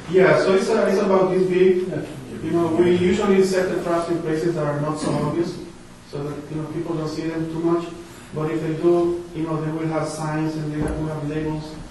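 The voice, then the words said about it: Speaks English with an accent. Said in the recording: “See my accent, I told you.”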